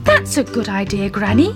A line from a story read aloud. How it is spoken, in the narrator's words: said Daddy Ted